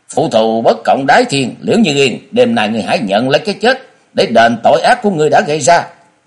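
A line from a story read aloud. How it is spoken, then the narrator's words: Calm, loud shout. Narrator (Vietnamese): chàng đã bình tĩnh rồi quát to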